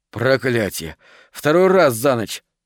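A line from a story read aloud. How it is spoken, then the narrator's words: Breathless exclamation. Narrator (Russian): выдохнул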